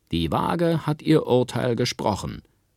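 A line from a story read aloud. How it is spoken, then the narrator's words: Called out to crowd. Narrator (German): rief Kaspar Maus den Leuten zu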